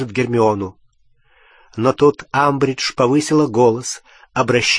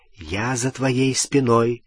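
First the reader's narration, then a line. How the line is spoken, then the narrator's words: Whisper in ear. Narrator (Russian): прошептал он в ухо Гермионы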